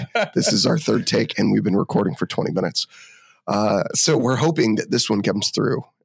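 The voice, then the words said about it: Sick voice, cracking. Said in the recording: “we're both sick today. As you can tell from my voice, it might be cracking like I am an eight-year-old little boy.”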